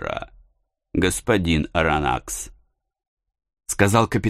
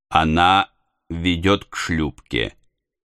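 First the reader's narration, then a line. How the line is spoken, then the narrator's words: Plain. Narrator (Russian): ответил он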